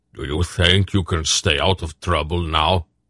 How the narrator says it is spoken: Beric asked him gruffly

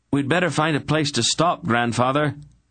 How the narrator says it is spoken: he yelled above the crash of the waves

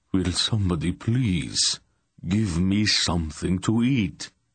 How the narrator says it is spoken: Rodar asked in an anguished tone of voice

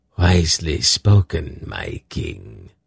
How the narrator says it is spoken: a rasping voice said

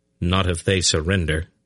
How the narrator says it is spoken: replied stiffly

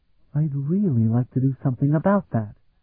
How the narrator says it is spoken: Sophronia murmured to Vanyan

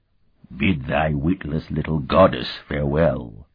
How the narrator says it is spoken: the slug-like man rumbled in antique Aline

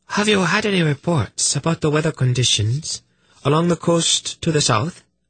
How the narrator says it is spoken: Prala asked calmly

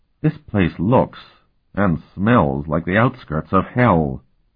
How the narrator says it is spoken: Tinian said in a somber voice

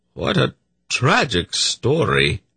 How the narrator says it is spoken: Zadi murmured

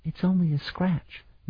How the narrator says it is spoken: Melodir lied, also in a whisper

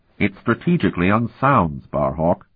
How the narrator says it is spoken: Vanion said flatly

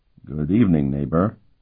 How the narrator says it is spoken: Sparhawk said quietly

